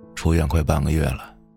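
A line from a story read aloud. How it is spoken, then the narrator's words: Hoarse. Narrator (Chinese): 老沈嘶哑着声音说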